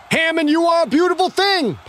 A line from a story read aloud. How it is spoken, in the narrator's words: Pine screamed